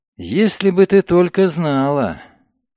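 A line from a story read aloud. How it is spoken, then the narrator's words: Purring. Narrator (Russian): Лиля промурлыкала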